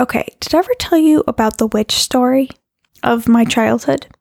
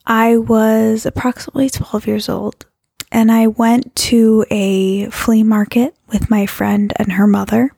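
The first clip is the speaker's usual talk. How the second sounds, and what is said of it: Low, sultry voice. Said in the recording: “bring my voice down into this very sexy voice”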